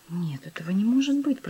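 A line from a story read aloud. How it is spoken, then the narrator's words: Whispered. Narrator (Russian): прошептала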